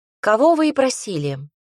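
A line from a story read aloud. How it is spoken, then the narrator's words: Perfectly calm. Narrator (Russian): Совершенно спокойно ответила девушка, похоже, единственная, сохраняющая тут спокойствие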